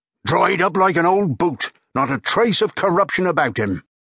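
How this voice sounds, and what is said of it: Booming broad Cornish accent. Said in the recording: “boomed the broad Cornish accent”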